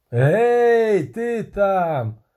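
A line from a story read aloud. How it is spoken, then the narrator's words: Shouting. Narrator (Ukrainian): закричав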